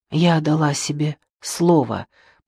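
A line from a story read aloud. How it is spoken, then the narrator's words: Whispered. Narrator (Russian): прошептала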